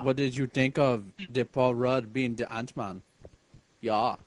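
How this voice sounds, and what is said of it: Put-on German accent. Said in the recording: “The fuck kind of accent is that? ... It's German, yeah. ... Why are you doing a German accent?”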